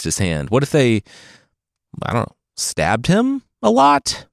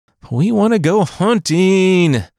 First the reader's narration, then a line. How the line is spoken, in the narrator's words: the brother whined